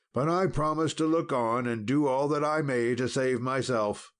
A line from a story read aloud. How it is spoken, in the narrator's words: cried Sir Dinadan